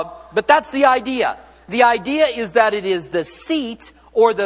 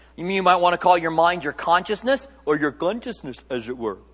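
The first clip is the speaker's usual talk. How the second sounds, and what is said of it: Deliberately bad Indian accent. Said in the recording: “Very bad Indian accent.”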